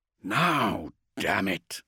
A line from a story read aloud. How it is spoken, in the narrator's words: Thane growled